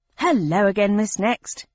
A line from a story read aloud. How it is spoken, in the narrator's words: he said cheerfully